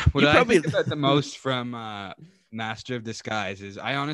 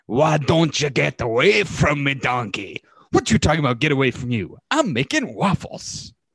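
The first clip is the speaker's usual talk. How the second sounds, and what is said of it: Impression of Shrek and Donkey voices. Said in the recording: “do an impression from the hit movie, Shrek.”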